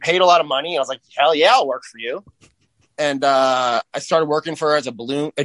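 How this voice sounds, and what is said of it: Usual voice. Nothing is said of it.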